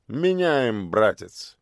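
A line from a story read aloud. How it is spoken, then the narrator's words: Dry, curt. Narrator (Russian): сухо кивнул злыдень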